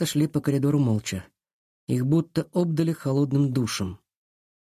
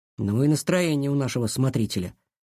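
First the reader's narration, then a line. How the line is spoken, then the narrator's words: Annoyed grumbling. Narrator (Russian): раздосадованно проворчал он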